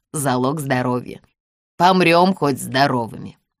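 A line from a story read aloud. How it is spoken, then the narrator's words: Wry snort. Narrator (Russian): хмыкнул Максим Георгиевич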